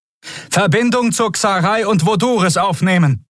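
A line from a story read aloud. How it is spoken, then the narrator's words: Shouting over noise. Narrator (German): rief über den Lärm zu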